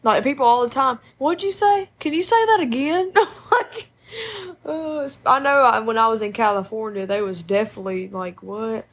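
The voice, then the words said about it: Soothing, twangy Southern accent. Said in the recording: “It's soothing and twangy. ... People really love a good Southern accent.”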